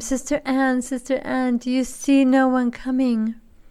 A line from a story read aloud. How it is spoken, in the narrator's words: she called out for the last time